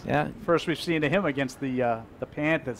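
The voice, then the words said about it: Exaggerated Boston accent. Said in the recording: “That's just the Boston accent. ... That was my old exaggerated Boston accent. ... I wouldn't normally say it like that.”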